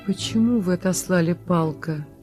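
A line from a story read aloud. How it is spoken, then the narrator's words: Sad question. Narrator (Russian): спросила она печально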